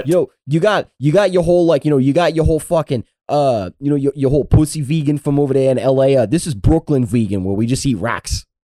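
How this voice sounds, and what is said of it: Put-on Brooklyn accent. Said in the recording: “How was my Brooklyn accent there? ... Pretty on point”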